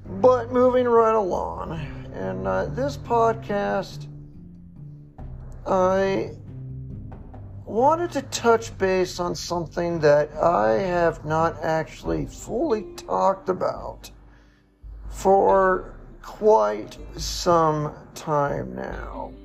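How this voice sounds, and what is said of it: Crackly, hoarse voice. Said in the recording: “not sound like a retired Reno hooker and chain smoker ... my voice is a little crackly and hoarse”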